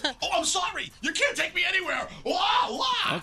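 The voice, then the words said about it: Loud yelling Greg T impression. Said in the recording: “he starts yelling and screaming throughout the restaurant in his Greg T voice”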